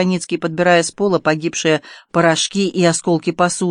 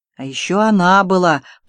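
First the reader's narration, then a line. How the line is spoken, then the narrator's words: Muffled voice, artilleryman. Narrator (Russian): произносит артиллерист глуховатым голосом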